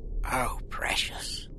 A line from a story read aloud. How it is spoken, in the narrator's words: she whispered